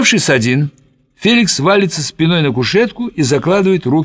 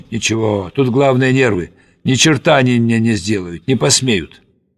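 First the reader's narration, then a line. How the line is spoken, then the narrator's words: Muttering. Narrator (Russian): Бормочет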